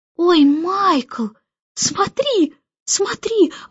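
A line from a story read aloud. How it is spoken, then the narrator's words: Excited shout. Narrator (Russian): восторженно закричала Джейн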